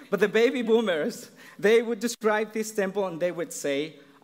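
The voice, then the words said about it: Thick Mexican accent. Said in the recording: “my thick Mexican accent”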